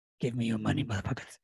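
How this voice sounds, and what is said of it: Very masculine put-on voice. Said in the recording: “very masculine. Very masculine.”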